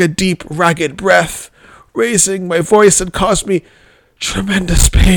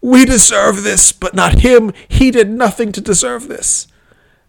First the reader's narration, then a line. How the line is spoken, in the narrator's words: Hoarsely, continued